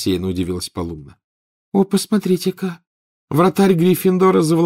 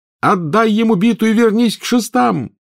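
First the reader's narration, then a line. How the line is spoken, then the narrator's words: Yell. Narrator (Russian): завопил Гарри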